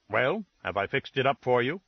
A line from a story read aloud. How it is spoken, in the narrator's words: said sharply